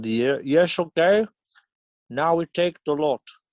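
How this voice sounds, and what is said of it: Poor put-on Dutch accent. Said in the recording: “my Dutch impression. It's not good.”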